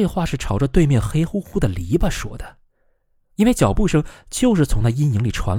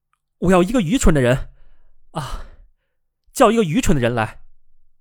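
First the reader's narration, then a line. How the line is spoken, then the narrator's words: Loud calling out. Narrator (Chinese): 他大声的呼喊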